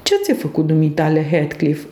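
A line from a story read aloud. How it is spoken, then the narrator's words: Plain question. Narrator (Romanian): îl întrebai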